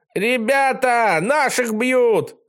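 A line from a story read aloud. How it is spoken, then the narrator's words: Yelling. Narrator (Russian): завопил Пинай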